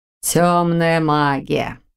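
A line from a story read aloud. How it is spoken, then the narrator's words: Drawl. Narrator (Russian): протянул Рот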